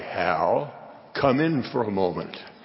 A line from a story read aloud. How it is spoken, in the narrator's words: I would hear my name ever so quietly